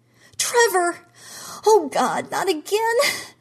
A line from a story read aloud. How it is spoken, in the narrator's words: Jean screamed